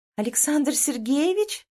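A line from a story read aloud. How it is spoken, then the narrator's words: Surprised exclamation. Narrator (Russian): воскликнула удивленно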